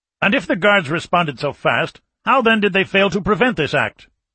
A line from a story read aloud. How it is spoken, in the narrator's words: demanded angrily